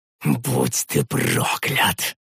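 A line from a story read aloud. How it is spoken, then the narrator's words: Helpless hiss. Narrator (Russian): прошипел я, сжимая в беспомощности кулаки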